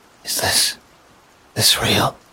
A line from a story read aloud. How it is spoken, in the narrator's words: She asks, her voice barely above a whisper